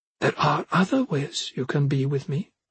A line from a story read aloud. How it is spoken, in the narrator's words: she said quietly